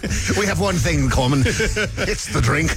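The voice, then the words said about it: Put-on Scottish accent. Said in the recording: “Thank you for doing the Scottish accent there.”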